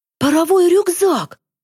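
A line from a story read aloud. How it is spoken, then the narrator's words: Breathed out. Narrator (Russian): выдохнул Захар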